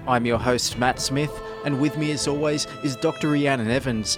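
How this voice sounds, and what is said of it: Broad Australian accent. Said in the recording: “in a broad Australian accent.”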